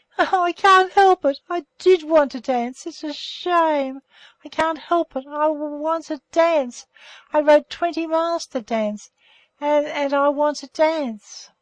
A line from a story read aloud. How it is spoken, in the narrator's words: she was heard sobbing hysterically